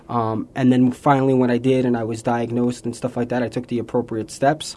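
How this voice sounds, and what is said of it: New York accent. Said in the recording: “If you can't tell from his accent, he's from New York.”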